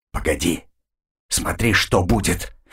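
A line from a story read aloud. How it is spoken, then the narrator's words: Whisper. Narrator (Russian): прошептал он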